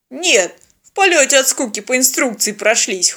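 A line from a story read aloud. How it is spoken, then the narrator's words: Chuckling. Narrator (Russian): хохотнул казак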